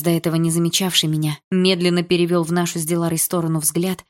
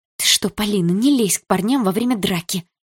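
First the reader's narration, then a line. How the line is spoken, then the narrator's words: Whisper. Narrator (Russian): зашептала она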